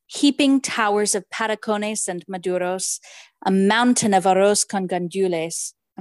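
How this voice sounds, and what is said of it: Spanish words in French accent. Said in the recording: “I'm really sorry about my Spanish accent. ... It's very French. ... he reads French with a Spanish accent and I do the opposite.”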